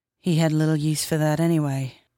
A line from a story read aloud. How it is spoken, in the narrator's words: Cog said quietly